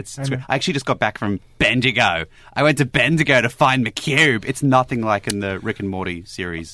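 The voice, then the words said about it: Weak put-on Australian accent. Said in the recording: “I appreciate your attempts at an Australian accent. It needs a bit of work, but...”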